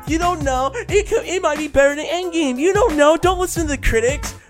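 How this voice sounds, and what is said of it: Imitates another person's voice. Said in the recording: “Your impression of Jen just now”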